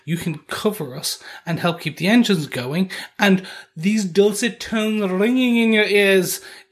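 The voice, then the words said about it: A very bad English accent. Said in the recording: “in a very bad English accent ... Is that an English accent?”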